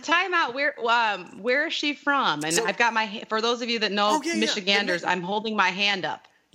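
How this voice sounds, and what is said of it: Michigan accent with overpronounced A's. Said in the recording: “I can tell from your accent, because you like overpronounce your, you know, your A's, or you say like pop”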